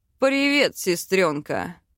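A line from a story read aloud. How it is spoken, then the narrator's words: Arrogant snort. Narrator (Russian): Хмыкнул высокомерный эльф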